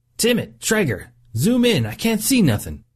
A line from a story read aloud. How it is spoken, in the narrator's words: Cox yelled over the silence